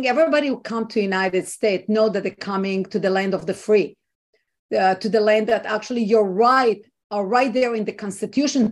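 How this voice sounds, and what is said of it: Israeli-accented English. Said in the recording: “you can hear from my accent i was not born here i was not raised here i am an immigrant and i'm coming from ... israel”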